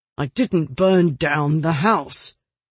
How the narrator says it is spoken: Hodges answered through clenched teeth

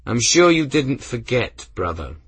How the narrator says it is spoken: Benedict replied, his tone wry

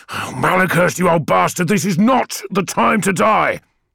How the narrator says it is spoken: A high shriek filled the corridor

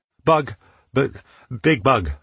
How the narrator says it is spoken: stammered

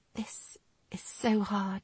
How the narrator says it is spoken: she whispered

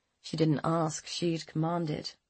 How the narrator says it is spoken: Rachel said dryly

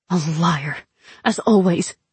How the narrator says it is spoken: I hissed

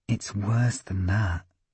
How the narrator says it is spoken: he said, voice dropping to a whisper

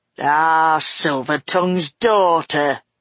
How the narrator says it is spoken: growled Cockrell sarcastically

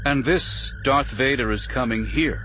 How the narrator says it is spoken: Bail said in a composed voice

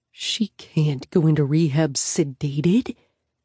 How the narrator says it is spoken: Sam whispers pointedly

